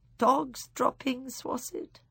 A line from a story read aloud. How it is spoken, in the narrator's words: She said, sighing